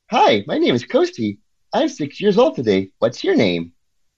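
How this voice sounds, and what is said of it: Cartoonish robot character voice. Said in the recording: “it sounds like a cartoonish voice ... my bad impression of Coasty”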